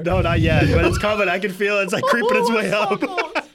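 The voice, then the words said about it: Wisconsin accent, sounds Canadian. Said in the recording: “you guys have a really weird accent ... we talk like Canadians ... the Wisconsin accent”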